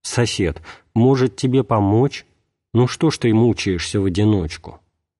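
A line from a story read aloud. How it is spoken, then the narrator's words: Calm after cooling down. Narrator (Russian): Немного остыв, он спокойно сказал вору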